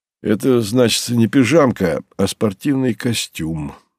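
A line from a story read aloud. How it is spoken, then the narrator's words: Mild, good-natured reply. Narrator (Russian): беззлобно ответила Ануфриенко, ласково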